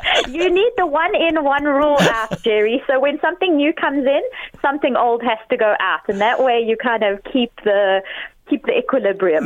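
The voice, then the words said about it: South African accent. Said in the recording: “I love your accent. You're obviously from the Southern Hemisphere ... from South Africa ... Oh, it's a beautiful accent.”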